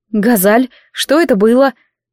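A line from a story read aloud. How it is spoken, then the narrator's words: Breathless, slightly shocked. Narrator (Russian): Выдохнула я, слегка шокированная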